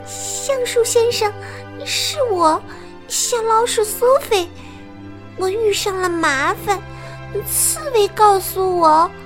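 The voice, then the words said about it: Timid, quiet little voice. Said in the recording (Chinese): “小老鼠怯生生的小声说”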